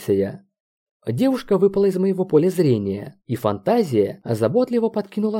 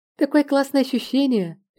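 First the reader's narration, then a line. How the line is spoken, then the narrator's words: Cheerful. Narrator (Russian): весело произнесла Маша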